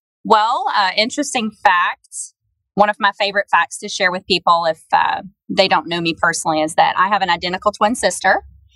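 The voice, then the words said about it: Southern American accent. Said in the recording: “the most southern like accent ... His his voice is southern, but mine's like a cuter southern ... your southern accent”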